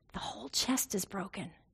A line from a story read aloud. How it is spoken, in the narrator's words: the resident next to me whispered